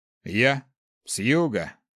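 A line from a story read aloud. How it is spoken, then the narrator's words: Man's snort. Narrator (Russian): хмыкнул мужчина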